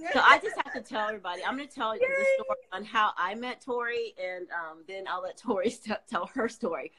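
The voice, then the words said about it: Voice affected by a cold. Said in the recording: “I have a cold”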